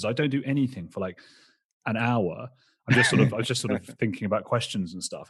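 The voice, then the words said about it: Out of breath speech. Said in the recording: “I'm all out of breath now.”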